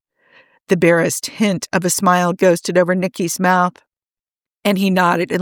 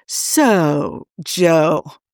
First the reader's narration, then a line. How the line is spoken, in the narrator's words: Merrick drawled